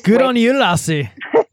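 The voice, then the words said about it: Put-on Scottish-Irish accent. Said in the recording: “don't start with those those accents ... Your Irish accent.”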